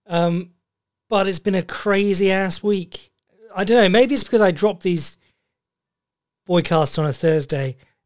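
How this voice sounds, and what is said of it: Voice sounds awful, unwell. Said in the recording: “coming off a bout of, I don't know what it was, stomach flu? Something bad. That's why I sound awful today.”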